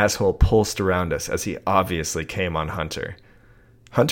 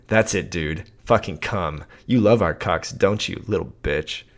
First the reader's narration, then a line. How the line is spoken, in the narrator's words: Hunter growled